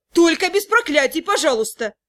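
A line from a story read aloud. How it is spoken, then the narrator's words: Irritated request. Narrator (Russian): меня раздраженно попросили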